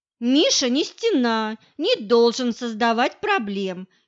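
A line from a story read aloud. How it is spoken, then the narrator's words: Cheerful chatter. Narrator (Russian): весело трещала Олька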